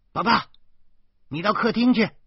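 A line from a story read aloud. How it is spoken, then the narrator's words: Loud, from another room. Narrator (Chinese): 老婆在厨房里大声说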